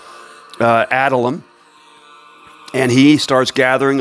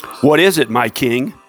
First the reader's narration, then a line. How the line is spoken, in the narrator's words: Ahimelech asked